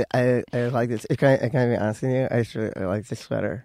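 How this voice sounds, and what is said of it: Imitates another person's voice. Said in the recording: “Will you do that impression of him? Will you do your impression? Just do any impression of him.”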